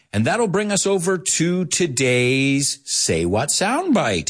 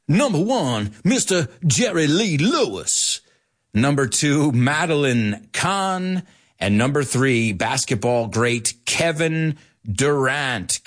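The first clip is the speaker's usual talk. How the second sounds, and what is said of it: Put-on Memphis Southern accent. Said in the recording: “I'm going to try and do it in my Memphis accent.”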